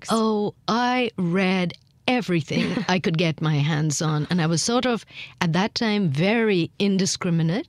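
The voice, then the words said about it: Accent with British influence. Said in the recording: “lingering traces in my accent, the British influence is very strong”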